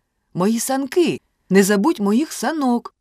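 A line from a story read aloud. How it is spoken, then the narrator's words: Shouted. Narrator (Ukrainian): крикнув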